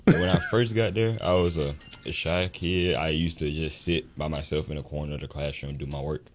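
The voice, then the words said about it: Deep radio voice. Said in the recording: “Now, that's a radio voice. ... His voice deeper than mine.”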